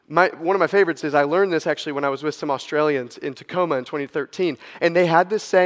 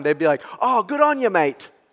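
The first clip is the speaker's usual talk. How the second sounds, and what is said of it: Poor put-on Australian accent. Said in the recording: “that is a terrible Australian accent. ... It's like the best I got for you.”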